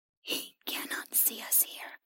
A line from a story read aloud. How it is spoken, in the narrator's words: the creature whispered